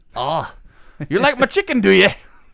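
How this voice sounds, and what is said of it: Attempted Scottish accent. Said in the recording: “is that supposed to be a Scottish accent?”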